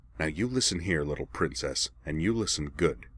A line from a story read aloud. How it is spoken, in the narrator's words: he growled, all the oily charm gone from his voice